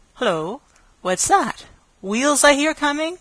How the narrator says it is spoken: Grandfer Cantle exclaimed

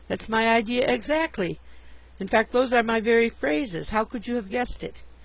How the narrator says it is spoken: exclaimed

